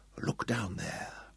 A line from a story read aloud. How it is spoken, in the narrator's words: he whispered in the man's mutilated ear